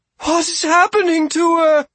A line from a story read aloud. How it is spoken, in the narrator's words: Argabella wailed